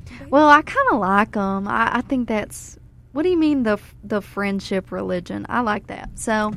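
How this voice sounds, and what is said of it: Put-on southern country accent. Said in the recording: “Are we just pulling out the country accent now? ... Sometimes I just slip right into a little southern accent.”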